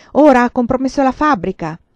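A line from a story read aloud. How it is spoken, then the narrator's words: Mother shouting. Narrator (Italian): urlava mia madre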